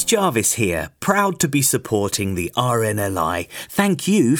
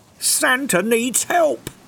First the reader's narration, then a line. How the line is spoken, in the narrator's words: cried the reindeer